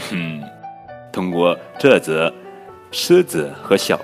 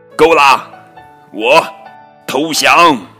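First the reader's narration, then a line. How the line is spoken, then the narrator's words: Exhausted, pained shout. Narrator (Chinese): 狮子精疲力竭，痛苦不堪，大叫了一声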